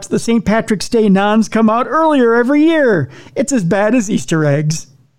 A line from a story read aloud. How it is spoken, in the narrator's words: a third mocked